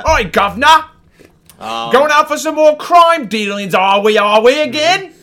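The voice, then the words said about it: Michael Caine impression, cockney. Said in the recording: “That is a ... master. ... sounds just like Michael Caine”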